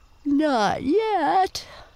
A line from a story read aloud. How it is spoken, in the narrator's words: yawned a little snapping turtle who had been drowsing